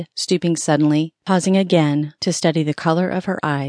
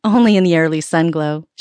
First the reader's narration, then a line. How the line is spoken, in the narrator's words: she laughed